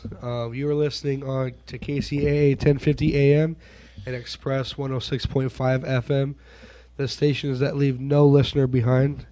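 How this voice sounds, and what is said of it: Voice sounds off, recovering. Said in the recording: “I'm just getting over a cold, so sorry about my voice.”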